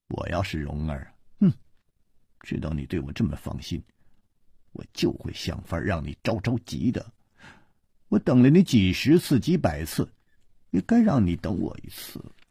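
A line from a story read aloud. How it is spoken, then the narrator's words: Scornful sneer. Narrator (Chinese): 他撇了撇嘴，冷笑着说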